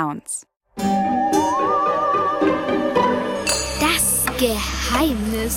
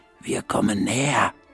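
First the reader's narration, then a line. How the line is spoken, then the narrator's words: Whispered. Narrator (German): flüstert Frau Krüger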